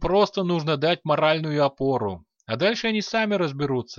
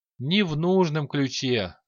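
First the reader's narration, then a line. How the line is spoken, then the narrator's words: Emperor sighing. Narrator (Russian): вздохнул император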